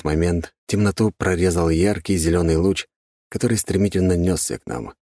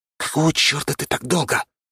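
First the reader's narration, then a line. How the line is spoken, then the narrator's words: Hiss. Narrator (Russian): прошипел я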